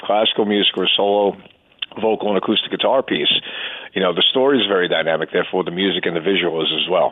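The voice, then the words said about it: American East Coast accent. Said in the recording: “your East Coast accent ... You could hear it. Yeah, you could hear it in his voice.”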